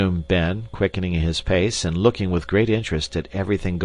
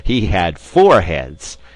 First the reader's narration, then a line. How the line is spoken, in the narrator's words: answered Ben, laughing